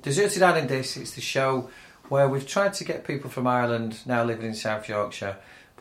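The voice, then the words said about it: Manchester English accent. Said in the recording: “they loved my Manchester accent”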